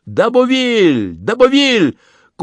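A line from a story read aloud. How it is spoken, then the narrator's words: Shouting. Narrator (Russian): прокричал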